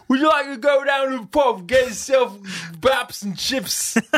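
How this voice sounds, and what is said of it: Terrible put-on EastEnder British accent. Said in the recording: “has a terrible British accent when he tries. ... It's awful. ... it's very EastEnder.”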